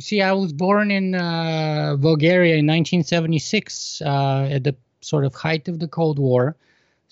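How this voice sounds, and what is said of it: Bulgarian accent. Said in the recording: “I'm sure my audience will be able to pick out your Bulgarian accent ... They can surely pick up my accent.”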